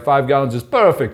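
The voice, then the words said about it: Imitated Russian accent. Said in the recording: “He's Russian, so that's his accent.”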